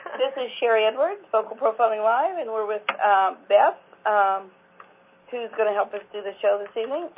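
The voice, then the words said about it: Voice sounding different from illness. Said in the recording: “gifted me with the Croupy Crud. So that's why my voice is sounding a little bit different.”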